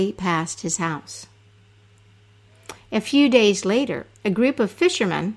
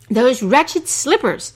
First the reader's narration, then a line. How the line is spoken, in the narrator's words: Abu Qasim cried